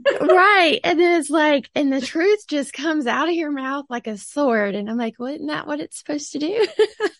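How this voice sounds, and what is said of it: Sweet Southern American accent. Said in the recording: “I sound so sweet and Southern ... her sweet Southern accent”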